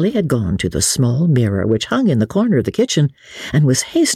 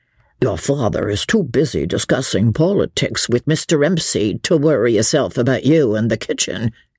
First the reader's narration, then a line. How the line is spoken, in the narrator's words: grumbled Jemima under her breath